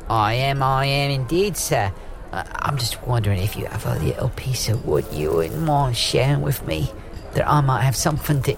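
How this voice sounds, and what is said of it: Put-on joke Cockney-style accent. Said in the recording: “We were just talking about your accent and what class you are ... You noticed my cock ring accent”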